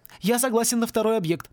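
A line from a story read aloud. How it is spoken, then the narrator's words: Hurried announcement. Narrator (Russian): торопливо объявил Порри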